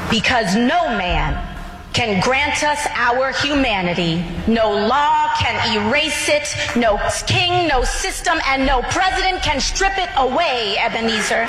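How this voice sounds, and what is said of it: Theatrical preacher-like oratory. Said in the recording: “she gets into that preacher voice... It's just bad acting”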